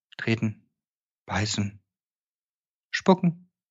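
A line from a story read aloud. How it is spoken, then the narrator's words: Calm reply. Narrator (German): gab sie ruhig zurück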